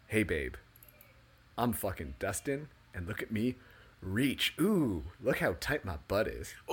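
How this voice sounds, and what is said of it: Exaggerated sexy seductive voice. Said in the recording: “the sexy voice”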